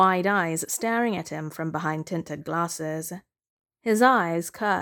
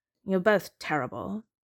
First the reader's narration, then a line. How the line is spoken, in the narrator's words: he mutters